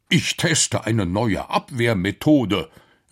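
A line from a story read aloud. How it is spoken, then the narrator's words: Professor calls out. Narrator (German): rief der Professor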